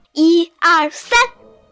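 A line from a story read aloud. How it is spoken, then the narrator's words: Loud counting. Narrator (Chinese): 匹诺曹开始大声数着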